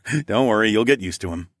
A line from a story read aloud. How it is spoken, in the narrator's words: I chuckled